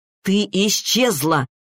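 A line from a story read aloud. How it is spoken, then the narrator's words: Furious shout. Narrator (Russian): выкрикнул Максим с яростью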